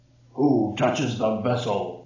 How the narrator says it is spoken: the voice boomed

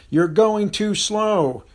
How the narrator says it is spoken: the trainer began to bellow

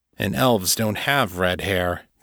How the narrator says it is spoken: Janus said grimly

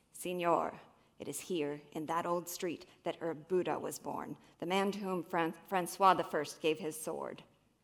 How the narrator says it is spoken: a man stops him to say in a proud, gruff voice

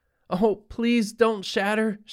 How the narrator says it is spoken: she pleaded to the two-story-high walls of window

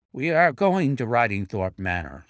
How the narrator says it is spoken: said he

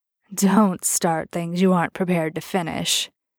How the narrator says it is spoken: the vampire growled at him

